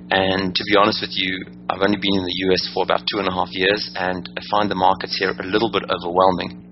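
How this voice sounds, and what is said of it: South African accent. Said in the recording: “as you can hear by my accent, I'm originally from Johannesburg, South Africa”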